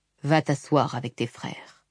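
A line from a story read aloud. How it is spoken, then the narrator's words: Gentle, fatherly. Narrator (French): lui dit doucement son père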